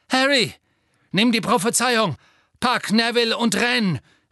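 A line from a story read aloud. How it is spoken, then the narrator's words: Calling out. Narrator (German): rief Sirius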